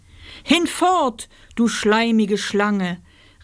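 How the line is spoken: Shouted. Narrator (German): rief Oswald

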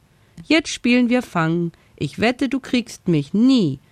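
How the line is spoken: Laughing call. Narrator (German): Lachend rief

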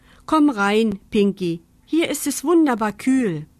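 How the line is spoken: Calling out. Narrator (German): Mama rief

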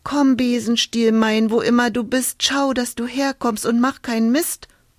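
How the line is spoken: Woman calling. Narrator (German): rief sie

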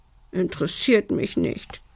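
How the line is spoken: Little dragon sobbing. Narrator (German): schluchzte der kleine Drache

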